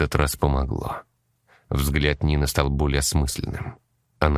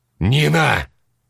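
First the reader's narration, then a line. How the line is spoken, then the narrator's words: Sharp shout. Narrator (Russian): Стас прикрикнул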